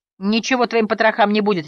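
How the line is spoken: Harsh bark. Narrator (Russian): рявкнул Келвин

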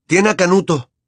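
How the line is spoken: Shouting. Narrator (Spanish): gritó

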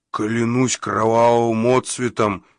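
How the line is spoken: Creature growling. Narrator (Russian): прорычал гнилозуб

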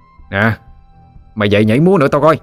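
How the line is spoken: Harsh shout. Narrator (Vietnamese): Cậu chàng gằn giọng quát lên

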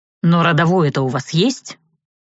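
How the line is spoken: Irritated question. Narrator (Russian): Раздраженно вопрошатель

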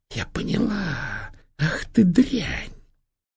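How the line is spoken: Angry whisper. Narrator (Russian): Она злобно прищурилась и прошептала

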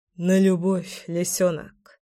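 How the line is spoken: Muttered. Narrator (Russian): пробормотал я

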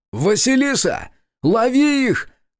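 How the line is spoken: Shout. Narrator (Russian): крикнул я

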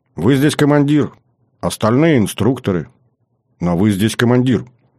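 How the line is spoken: Calm young woman, unservile. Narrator (Russian): Девушка спокойно, абсолютно без подобострастия ответила

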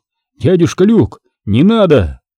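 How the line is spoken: Shout. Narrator (Russian): Хуан крикнул

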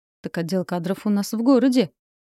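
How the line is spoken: Smirking young man. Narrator (Russian): хмыкнул парень в камуфляже

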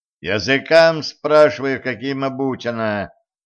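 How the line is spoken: Loud, slow repetition. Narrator (Russian): громко, как для глухой, повторил Кощей

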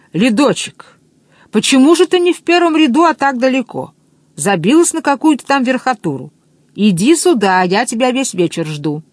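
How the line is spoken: Shouting from a stage. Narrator (Russian): Он закричал с эстрады

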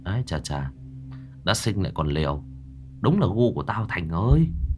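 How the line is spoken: Muttering. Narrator (Vietnamese): Tôi lẩm bẩm

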